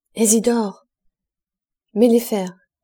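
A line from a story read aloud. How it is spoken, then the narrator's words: Shouted. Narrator (French): cria Coupeau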